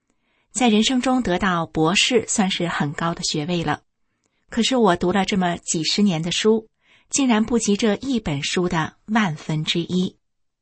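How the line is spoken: Admiring sigh. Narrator (Chinese): 张美莹感叹的说

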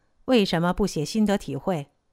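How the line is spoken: Flat, indifferent. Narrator (Chinese): 我淡淡的说

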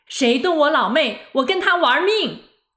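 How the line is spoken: Loud shouting. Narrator (Chinese): 大声喊

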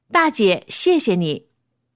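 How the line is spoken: Calling out. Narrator (Chinese): 那几个人边上车边朝我喊

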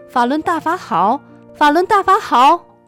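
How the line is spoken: Hoarse shouting. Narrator (Chinese): 喊到他都快喊不出声了

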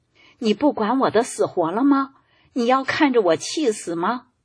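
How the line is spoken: Crying old spouse. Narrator (Chinese): 老伴 又哭了起来，说

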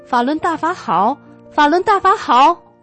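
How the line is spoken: Hoarse, exhausted shouting. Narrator (Chinese): 喊到他都快喊不出声了

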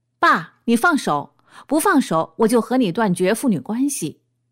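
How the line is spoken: Loud roar. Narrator (Chinese): 突然不远处发出一个响亮的吼声

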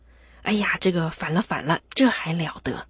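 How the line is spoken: Furious shouted demand. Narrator (Chinese): 秦桧呢，马上就面色铁青的喝问这个当家的和尚说

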